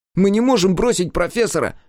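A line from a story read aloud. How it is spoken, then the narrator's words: Shouting. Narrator (Russian): выкрикнул кератиец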